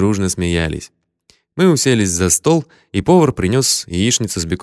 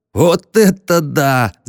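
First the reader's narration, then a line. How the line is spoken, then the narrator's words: Yelling. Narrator (Russian): заорал Текс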